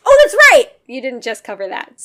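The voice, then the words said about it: Screaming into the microphone. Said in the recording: “sorry for screaming into the microphone”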